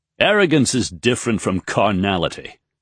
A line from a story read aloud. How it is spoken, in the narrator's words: Raythan declared in a snappish voice